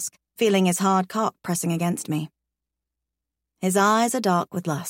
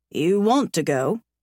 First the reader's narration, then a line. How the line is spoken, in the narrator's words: he queries slowly